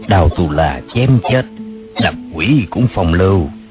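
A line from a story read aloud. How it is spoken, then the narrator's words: Soft whisper in ear. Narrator (Vietnamese): ghé vào tai nàng nói khẽ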